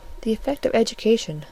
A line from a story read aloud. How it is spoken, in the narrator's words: said Fanny gently